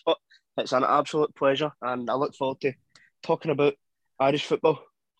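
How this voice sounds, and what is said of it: Scottish Glasgow accent. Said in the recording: “a Scottish accent, to be honest, a Glasgow accent”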